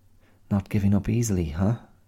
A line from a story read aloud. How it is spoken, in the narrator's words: she muttered